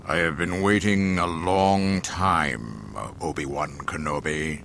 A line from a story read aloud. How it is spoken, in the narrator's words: Darth Vader intoned solemnly